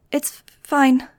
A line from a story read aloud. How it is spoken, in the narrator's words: she lied, her voice quivering as she bit back the pain